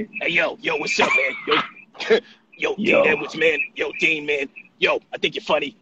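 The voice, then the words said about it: Imitates another person's voice. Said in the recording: “I can do Aries Spears.”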